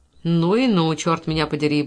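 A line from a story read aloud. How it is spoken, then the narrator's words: Gleeful mutter. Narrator (Russian): бормотал, потирая руки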